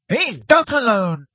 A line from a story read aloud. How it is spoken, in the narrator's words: shouted a voice from above them